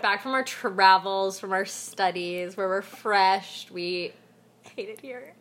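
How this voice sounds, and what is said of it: Nasal congested voice from cold. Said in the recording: “I have a cold right now, so that's why I sound so ... sexy. ... Nasally.”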